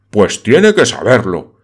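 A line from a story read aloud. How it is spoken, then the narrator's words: Exclaimed, beside himself. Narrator (Spanish): exclamó Aristóbulus Ursiclos, completamente fuera de sí por aquella discusión que le sacaba de quicio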